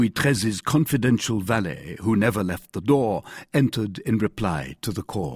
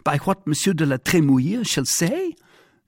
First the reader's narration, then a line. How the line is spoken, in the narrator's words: cried the king